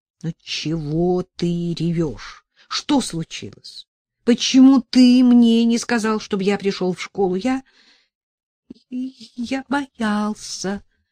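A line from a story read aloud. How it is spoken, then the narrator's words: Forced out, hiccuping. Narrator (Russian): выдавил Иван икая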